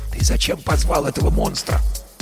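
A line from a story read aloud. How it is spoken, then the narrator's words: Whisper into ear. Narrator (Russian): шепнул Герман на ухо Баженову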